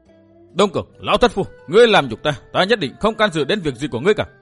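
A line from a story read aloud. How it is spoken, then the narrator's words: Enraged thunderous shout. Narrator (Vietnamese): Bị đối phương bức bách, Dương Viễn máu dần sung thiên, chàng hét lên như sấm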